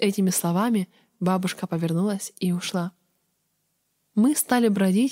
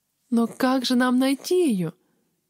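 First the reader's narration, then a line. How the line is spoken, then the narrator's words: Whimpering. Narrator (Russian): захныкала я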